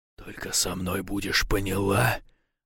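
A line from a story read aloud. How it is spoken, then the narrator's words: Close breathy hiss. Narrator (Russian): прошипел, выдыхая в ее полуоткрытые губы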